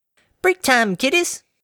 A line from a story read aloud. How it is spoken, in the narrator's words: she chirped